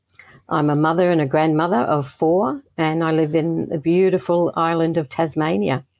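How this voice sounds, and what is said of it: Slight Australian accent. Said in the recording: “there's a little bit of a accent that we can hear here in the US ... I'm currently living in Tasmania, Australia, born in Northern Ireland, but most of that accent's gone”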